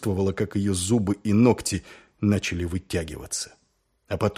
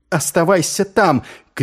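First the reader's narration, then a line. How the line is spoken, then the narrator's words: Shouted. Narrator (Russian): крикнула она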